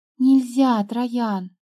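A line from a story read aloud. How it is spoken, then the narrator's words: Sighing. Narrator (Russian): вздохнула она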